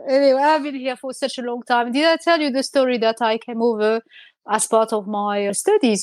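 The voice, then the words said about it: Strong French accent. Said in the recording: “still with a very strong French accent”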